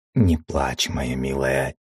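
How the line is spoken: Quiet voice. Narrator (Russian): тихо сказал

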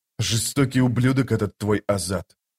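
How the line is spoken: Muttered. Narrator (Russian): пробормотал Паран

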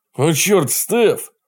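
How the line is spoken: Exclaiming. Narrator (Russian): воскликнул

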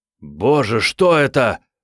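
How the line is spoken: Nearly shouting. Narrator (Russian): почти закричал он

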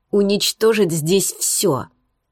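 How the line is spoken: Angry command. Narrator (Russian): Зло приказал Булат

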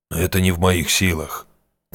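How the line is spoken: Quiet reply. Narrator (Russian): тихо ответил Арчи

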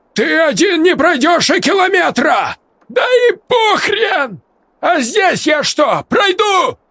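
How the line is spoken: Frantic yelling. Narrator (Russian): завопил Игорь

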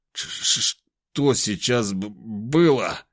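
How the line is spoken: Stammering question. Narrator (Russian): чуть заикаясь, спросил

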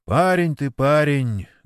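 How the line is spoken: Sighing. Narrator (Russian): вздохнул Сергей Митрофанович

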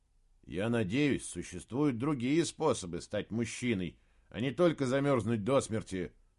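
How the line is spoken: Grumbling. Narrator (Russian): проворчал Саймон

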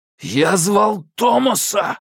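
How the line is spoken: Sudden loud shout. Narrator (Russian): выкрикнул Алби неожиданно громким голосом, что всего секунду назад казалось абсолютно невозможным

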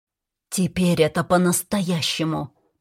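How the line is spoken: Hissing. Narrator (Russian): прошипела я ему

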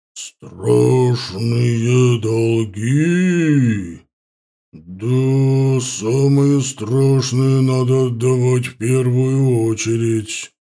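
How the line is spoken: Relieved exhale. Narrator (Russian): Теонард облегченно выдохнул

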